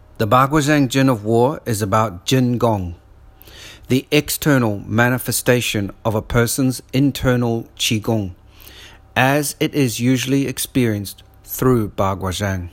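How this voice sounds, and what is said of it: Noticeable foreign accent. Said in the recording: “with my accent, as you can hear it, the two words sound the same”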